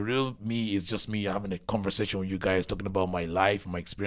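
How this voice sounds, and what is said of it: Usual voice. Nothing is said of it.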